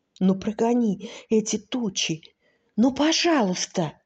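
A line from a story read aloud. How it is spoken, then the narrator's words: Whispered question. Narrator (Russian): шепотом спросил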